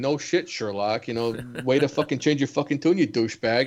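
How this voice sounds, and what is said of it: Regional accent stronger when annoyed. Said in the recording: “There it is. There it is. You can hear the accent. Like, when you drop the douchebag, you definitely have it.”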